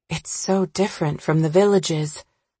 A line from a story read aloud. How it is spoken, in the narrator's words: murmur aloud